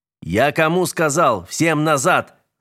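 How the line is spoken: Yelling. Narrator (Russian): заорал Градов

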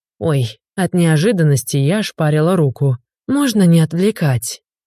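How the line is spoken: Deep sigh. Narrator (Russian): Глубоко вздохнула

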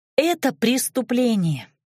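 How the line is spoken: Heavy sigh. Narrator (Russian): вздохнула я тяжко

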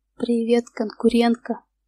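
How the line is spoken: Ringing, slightly husky voice. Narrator (Russian): проговорил он звонким голосом с легкой хрипотцой

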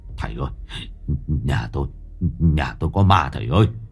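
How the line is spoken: Trembling stammer. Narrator (Vietnamese): Ông Cửu vẫn còn chưa hết run rẩy, ông lắp bắp nói với thầy

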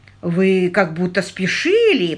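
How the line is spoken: Grumbling, frowning driver. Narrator (Russian): проворчал водитель, все еще нахмурившись

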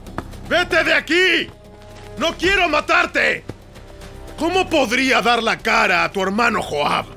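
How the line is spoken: Shouted again. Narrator (Spanish): Abner le volvió a gritar

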